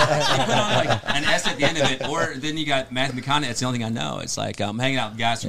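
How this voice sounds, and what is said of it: Usual voice. Nothing is said of it.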